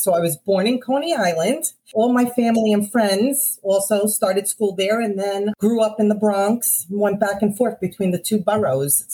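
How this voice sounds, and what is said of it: Thick Brooklyn-Bronx New York accent. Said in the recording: “you are a native New Yorker ... It is indeed the accent. ... The two thickest accents combined, Brooklyn and Bronx ... So the thickest accent”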